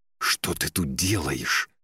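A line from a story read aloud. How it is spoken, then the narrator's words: Hissing. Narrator (Russian): зашипела Вельва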